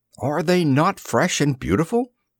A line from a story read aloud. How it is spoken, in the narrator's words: I cried, with all the enthusiasm of a man fresh from the fogs of Baker Street